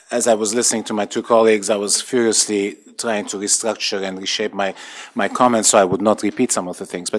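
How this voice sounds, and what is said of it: Speaks with a foreign accent. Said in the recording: “not with my accent”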